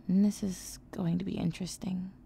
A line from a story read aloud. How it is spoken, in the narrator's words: he muttered